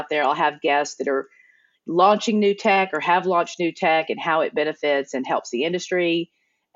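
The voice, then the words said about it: East Texas accent with twang. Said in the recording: “twang comes from the fact that I can't scrub off this East Texas accent”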